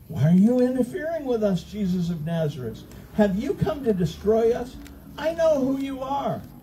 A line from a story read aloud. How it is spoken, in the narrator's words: a man in the synagogue who was possessed by an evil spirit cried out